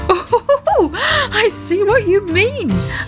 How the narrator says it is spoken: laughed Daddy Ted

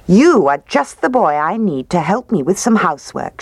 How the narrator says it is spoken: she said

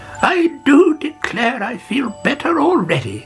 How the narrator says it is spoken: she cried

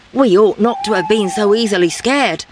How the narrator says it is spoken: said the leader

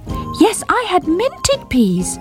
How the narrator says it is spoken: repeated Squeak, determined not to be ignored

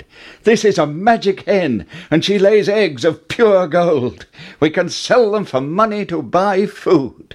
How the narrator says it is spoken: Jack cried

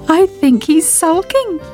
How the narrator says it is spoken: giggled Sybil

